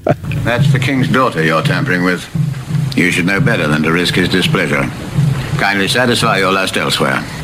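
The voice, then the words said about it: Cockney putting on posh English accent. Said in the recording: “terrible English accents ... a bit of a Cockney putting on a posh voice”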